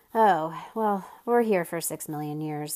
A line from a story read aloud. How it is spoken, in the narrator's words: sighed Milo